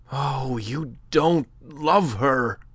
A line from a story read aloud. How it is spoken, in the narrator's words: cried the other passionately